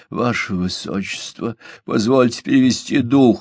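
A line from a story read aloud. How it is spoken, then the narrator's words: Strained, forced out. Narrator (Russian): с трудом выдавил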